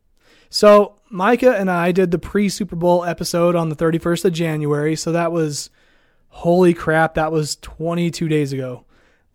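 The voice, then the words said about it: Strained, fading voice from illness. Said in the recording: “I just came down with the flu. ... my voice is already starting to go”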